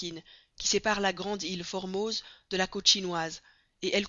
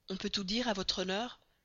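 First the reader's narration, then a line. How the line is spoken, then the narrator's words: Low voice. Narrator (French): dit-il à voix basse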